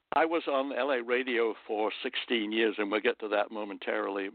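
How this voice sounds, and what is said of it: London accent. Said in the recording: “could tell you had an accent ... I was raised and born in London”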